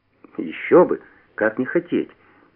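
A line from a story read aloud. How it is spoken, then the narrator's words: Calm indifferent tone. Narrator (Russian): спокойно, безразличным тоном ответил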